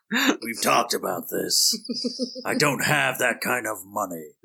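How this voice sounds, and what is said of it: Gravelly Batman impression. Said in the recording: “doing your Batman voice ... That gravelly voice was legally distinct from Batman.”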